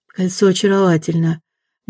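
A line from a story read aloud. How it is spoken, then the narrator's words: Soft. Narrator (Russian): мягко сказала Ирина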